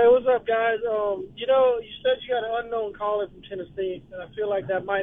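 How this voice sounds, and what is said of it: Usual voice. Nothing is said of it.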